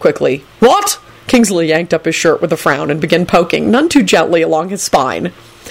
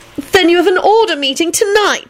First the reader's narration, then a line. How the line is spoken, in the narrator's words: Elizabeth wailed